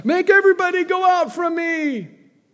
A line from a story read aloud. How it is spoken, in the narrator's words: he cried out